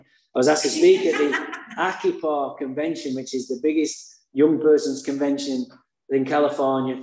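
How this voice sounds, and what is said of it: Speaks with a noticeable accent. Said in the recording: “I have a funny accent”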